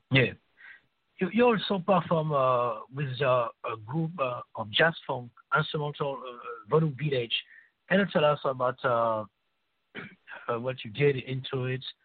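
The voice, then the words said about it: French accent. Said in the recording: “It's my French accent.”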